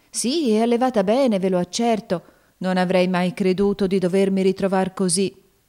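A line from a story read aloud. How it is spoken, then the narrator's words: Woman sighing. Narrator (Italian): rispose sospirando la donna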